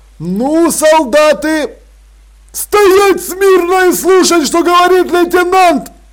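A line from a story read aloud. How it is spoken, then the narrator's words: Yelling. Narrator (Russian): заорал Страппи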